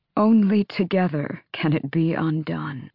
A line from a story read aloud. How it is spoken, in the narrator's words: Glenys whispered